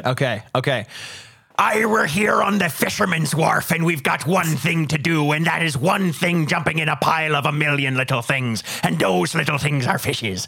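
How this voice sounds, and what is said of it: Put-on Irish pirate accent. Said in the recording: “pirate ... I think this pirate is Irish. I think I'm turning into Conor McGregor with this Irish pirate accent ... That was some good pirate right there.”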